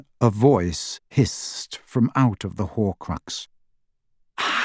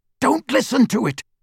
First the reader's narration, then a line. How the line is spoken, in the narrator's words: Harry said harshly